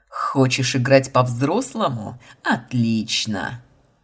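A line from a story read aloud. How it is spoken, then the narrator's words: Growl. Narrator (Russian): Рыкнул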